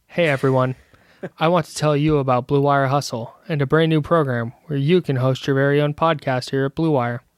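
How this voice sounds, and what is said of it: Mock public-radio announcer voice. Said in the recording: “What if I just did the read like that? ... My NPR voice. ... I said the same thing, but I said it with a different inflection in my voice, so it sounded different.”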